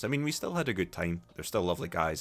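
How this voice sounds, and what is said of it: Mild Scottish accent. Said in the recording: “I don't have a particularly strong Scottish accent ... force myself to speak a bit more slowly”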